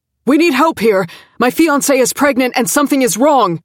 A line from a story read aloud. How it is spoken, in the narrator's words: he shouted